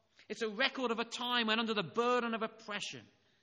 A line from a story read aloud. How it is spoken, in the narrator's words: they called out to him